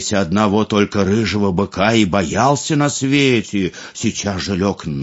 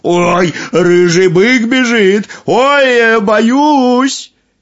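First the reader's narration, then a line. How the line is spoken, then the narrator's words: Feigned frightened shout. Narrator (Russian): Нарочно испугался и закричал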